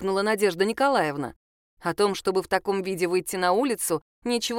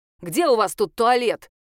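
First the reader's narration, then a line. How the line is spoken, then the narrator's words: Shouted. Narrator (Russian): крикнула Надежда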